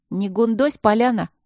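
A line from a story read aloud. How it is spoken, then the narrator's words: Girl snapping back. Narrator (Russian): огрызнулась девица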